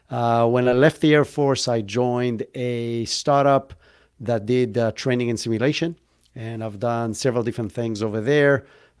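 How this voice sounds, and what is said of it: Israeli accent. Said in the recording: “I grew up in Israel, hence where if you were kind of like trying to pick up the accent, that's where I'm from.”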